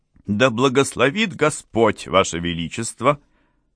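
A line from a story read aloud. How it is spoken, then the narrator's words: Grandiloquent voice. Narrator (Russian): сказал патетическим голосом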